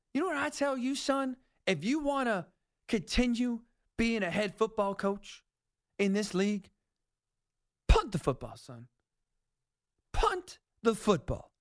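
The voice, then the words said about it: Slight put-on Southern accent. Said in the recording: “invoked a little Southern accent”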